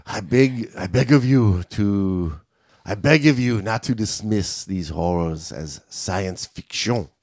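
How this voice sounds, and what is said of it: Put-on French accent. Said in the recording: “Can you do it with a French accent, please?”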